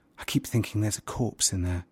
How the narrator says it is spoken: murmured

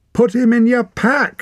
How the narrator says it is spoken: shouted Wren from the other side

